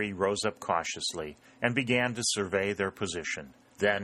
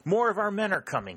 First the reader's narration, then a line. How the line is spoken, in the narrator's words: exclaimed